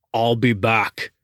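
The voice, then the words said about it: Arnold Schwarzenegger impression. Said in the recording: “my Arnold Schwarzenegger impersonation.”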